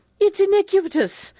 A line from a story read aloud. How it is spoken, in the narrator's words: Vera cried out